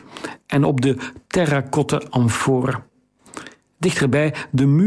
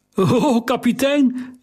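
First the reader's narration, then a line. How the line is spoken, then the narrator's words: Unsteady voice calling. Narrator (Dutch): riep hij met onvaste stem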